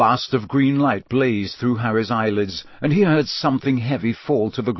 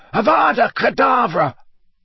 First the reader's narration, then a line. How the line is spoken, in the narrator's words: a second voice which screeched the words to the night